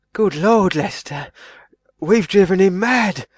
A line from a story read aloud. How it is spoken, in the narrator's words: he said in a frightened whisper